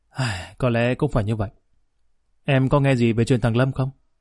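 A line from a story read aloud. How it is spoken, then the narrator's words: Sighing. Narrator (Vietnamese): Nguyễn thở dài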